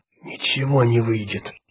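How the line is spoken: Whispered. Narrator (Russian): прошептал Джоан Эзра Гурни

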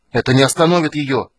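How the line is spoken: Terrified shout. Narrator (Russian): в ужасе закричал Эбен

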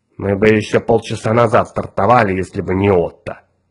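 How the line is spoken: Grumbling. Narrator (Russian): проворчал мозг

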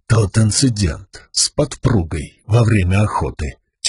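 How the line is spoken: Quiet. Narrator (Russian): тихо произнес

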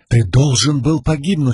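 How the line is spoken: Exclaiming. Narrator (Russian): воскликнул Сигзил

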